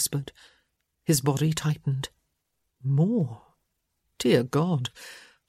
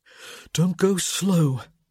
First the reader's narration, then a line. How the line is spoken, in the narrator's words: he gasped